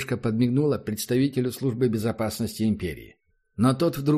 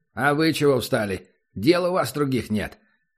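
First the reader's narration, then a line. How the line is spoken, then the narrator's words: Barking, angry. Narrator (Russian): рявкнул СБИшник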